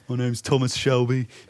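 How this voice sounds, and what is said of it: Attempted Birmingham accent. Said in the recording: “That's a hard accent, the Birmingham accent ... All right. It's a start.”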